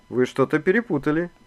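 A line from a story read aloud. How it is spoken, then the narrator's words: Calm. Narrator (Russian): спокойно сказал Иван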